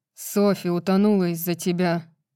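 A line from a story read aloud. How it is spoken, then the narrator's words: Growled. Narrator (Russian): прорычал Рун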